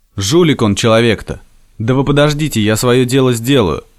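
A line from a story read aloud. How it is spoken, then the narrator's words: Calm. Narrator (Russian): спокойно отозвался Красавин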